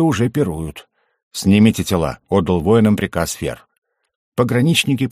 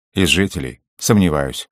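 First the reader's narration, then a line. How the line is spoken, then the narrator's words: Gloomy. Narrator (Russian): мрачно сказал пограничник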